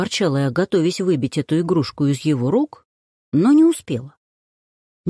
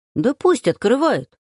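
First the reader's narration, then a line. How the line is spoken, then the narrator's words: Sharp. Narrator (Russian): резко произнесла я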